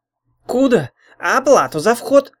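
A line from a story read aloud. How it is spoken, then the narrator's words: Bark turning to whimper. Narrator (Russian): рявкнул было Псойка Рыжий, но тут же заскулил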